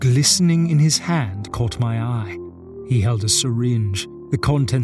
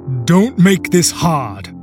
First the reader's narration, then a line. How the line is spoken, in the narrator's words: one of the men barked